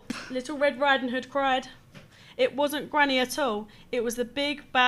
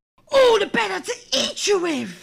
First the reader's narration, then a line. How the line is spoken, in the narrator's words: snarled Granny